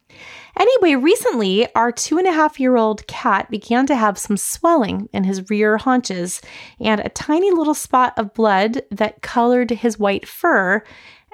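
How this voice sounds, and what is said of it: Raspy, scratchy voice. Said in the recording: “my voice is a little bit raspy or scratchy today ... a little bit of a head cold ... just a little bit of a scratchiness”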